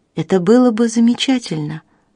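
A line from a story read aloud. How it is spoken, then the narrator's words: Sighing. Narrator (Russian): вздохнула мисс Хендерсон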